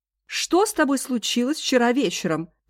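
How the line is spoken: Shouting. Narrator (Russian): крикнула Эндж

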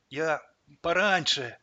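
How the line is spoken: Forced-out words. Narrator (Russian): выдавил он

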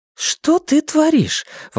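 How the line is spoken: Exclamation. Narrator (Russian): воскликнула Элиза

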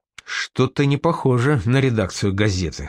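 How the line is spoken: Quiet. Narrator (Russian): сказал тихо

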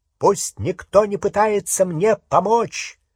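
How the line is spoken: Loud. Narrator (Russian): громко сказал Гарри

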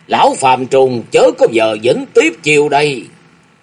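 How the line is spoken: Angry shout. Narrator (Vietnamese): Nguyễn Đình Hoa tức giận quát lớn

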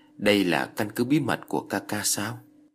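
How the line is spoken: Light, mysterious smiling voice. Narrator (Vietnamese): hơi mỉm cười, trong nụ cười lại chất chứa mấy phần bí hiểm, giọng nói cũng nhẹ nhàng như không

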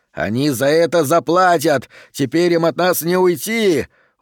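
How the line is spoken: Shouting. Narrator (Russian): крикнул

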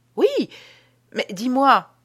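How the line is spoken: Sudden surprised exclamation. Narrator (French): s'écria tout à coup Ambroise, qui ne put dissimuler sa surprise

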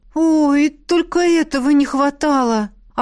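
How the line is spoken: Resigned groan. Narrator (Russian): обреченно простонала Беата

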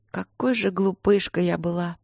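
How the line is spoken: Quiet. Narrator (Russian): тихо сказала королева мужу

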